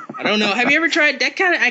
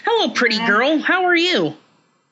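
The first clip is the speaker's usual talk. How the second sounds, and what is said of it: Imitates another person's voice. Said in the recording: “I did that voice ... I kind of felt like a David Lynch just a little bit there”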